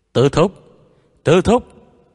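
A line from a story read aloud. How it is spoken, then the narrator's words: Calling into microphone. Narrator (Vietnamese): Viu Tiểu Dũng hướng vào micro kêu lên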